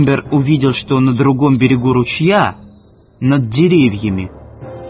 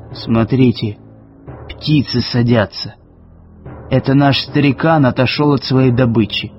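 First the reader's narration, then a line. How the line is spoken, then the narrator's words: Whispered. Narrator (Russian): Уилсон прошептал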